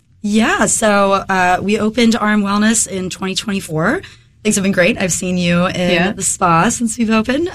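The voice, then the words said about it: Slightly hoarse voice. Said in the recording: “I'm getting over a head cold right now ... my voice is a little hoarse”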